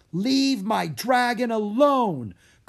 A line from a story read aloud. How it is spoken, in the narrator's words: Carlos yelled at the woman